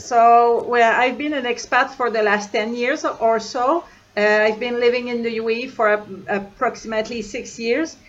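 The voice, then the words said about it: French accent. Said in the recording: “you've got a French accent”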